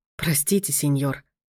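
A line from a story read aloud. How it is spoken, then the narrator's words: Embarrassed butler mumbling. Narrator (Russian): пробормотал смущенно дворецкий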